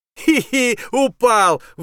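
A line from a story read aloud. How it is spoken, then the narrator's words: Gleeful shout. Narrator (Russian): выкрикнул Тишкин, захлебываясь от радости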